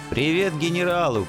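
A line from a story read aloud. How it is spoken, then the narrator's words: Shouting after someone. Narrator (Russian): крикнул я вслед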